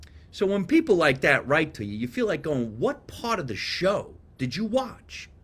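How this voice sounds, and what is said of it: New Jersey accent. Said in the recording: “My accent's from New Jersey. I was born and raised there.”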